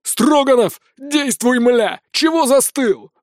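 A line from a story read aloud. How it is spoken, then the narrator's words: Yelled. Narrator (Russian): заорал он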